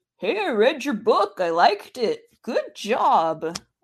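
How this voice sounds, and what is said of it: Imitates another person's voice. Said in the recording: “That's actually an uncanny impersonation of him.”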